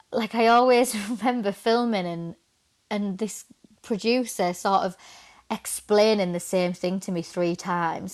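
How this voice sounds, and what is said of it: Northern English accent. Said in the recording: “my accent ... from the north”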